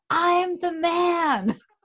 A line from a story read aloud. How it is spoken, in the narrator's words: I yelled back